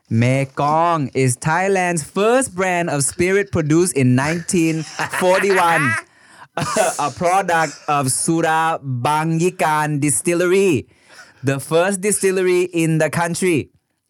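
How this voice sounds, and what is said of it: Put-on Thai accent. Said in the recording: “do it in a Thai accent ... that's that vocal inflection that I'm talking about that I don't know about in Thai until you do it.”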